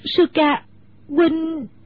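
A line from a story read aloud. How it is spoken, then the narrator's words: Choked, tearful. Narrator (Vietnamese): Nước mắt Mẫn Nhu trào ra như mưa, nàng nghẹn ngào nói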